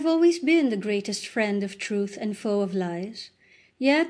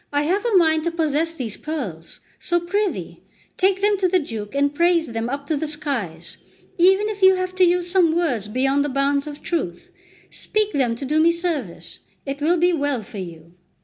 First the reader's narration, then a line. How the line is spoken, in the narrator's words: the Duchess showed some signs of irritation and exclaimed